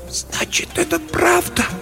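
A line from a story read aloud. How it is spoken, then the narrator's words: Whispered. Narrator (Russian): прошептала она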